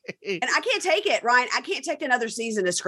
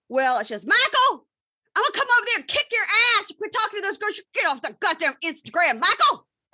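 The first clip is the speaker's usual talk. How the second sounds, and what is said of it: Screaming impression of Angela. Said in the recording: “I do an Angela impression ... do your Angela impression ... screaming like that”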